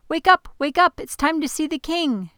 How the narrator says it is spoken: chirped Flute

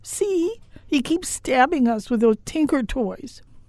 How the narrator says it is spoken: The 6-year-old, the one who had come for help, cried

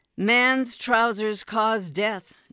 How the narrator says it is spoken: Norma called out

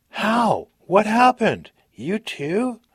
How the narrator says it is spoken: He was blubbering

